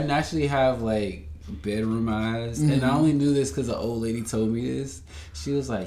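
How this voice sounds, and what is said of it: Smooth voice with Southern country accent. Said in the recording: “your silky magic voice ... always so smooth ... I'm from Charlotte too, so I'm like country as hell”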